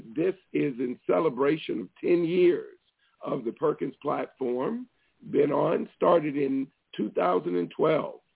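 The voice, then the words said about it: Hoarse, fading voice. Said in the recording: “I'm losing my voice a bit”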